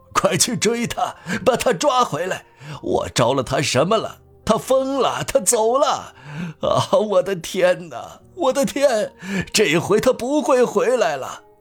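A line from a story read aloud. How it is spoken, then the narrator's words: Miserable, hoarse. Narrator (Chinese): 他用凄惨的嘶哑声又说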